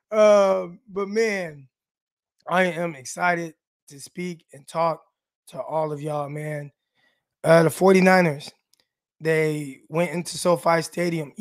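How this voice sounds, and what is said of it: Raspy, hoarse voice. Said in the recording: “I know I always kind of sound like this, like I'm sick or lost my voice a little bit, a little raspy ... it's a little more raspier than usual”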